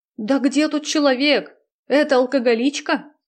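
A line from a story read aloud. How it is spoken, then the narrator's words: Wailing in awful voice. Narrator (Russian): завопил поэт дурным голосом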